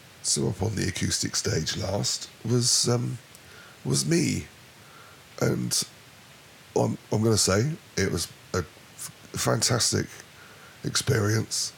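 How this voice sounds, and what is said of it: Strained, fading hoarse voice. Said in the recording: “losing your voice on stage. Well, during the entire day. ... I'm losing my voice now”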